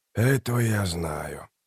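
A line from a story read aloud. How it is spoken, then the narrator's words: Quiet. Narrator (Russian): тихо произнес Трель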